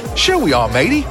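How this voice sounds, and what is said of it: Put-on Australian accent. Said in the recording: “My Australian accent. I'm Mitchell Johnson.”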